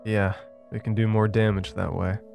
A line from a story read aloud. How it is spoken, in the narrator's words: Evan said with a chuckle